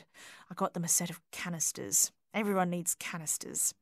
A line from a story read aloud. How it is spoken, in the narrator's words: whispered